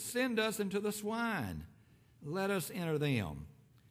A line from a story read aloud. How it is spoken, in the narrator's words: the unclean spirits begged Jesus